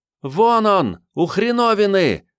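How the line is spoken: Ringing yell. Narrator (Russian): звонко завопила Катрин

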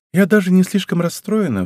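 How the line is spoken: Sighing. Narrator (Russian): вздохнула она

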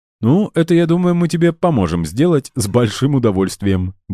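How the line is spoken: Cheerful snort. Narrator (Russian): бодро хмыкнул Эльдар

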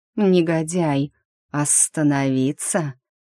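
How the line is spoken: Sly drawl of snake. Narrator (Russian): коварно протянул змей

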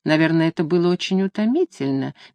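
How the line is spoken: Soft question. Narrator (Russian): мягко спросила

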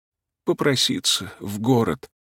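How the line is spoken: Hoarse voice from cold. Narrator (Russian): отвечал Мишка простуженным голосом

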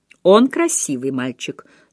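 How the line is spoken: Dry tone. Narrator (Russian): сухо сказала миссис Верекер

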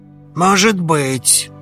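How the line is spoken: Snorting. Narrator (Russian): хмыкнул он

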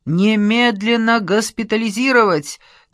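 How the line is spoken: Shouted. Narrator (Russian): кричал Джапаридзе

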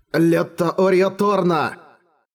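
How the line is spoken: Loud shout. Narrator (Russian): Эрагон громко крикнул

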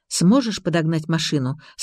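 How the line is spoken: Plain. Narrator (Russian): спросил Алексей

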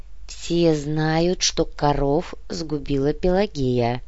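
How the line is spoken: Dull, muffled repetition. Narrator (Russian): глухо повторил однорукий

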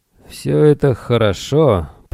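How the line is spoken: Grumbling. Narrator (Russian): проворчал Грегор

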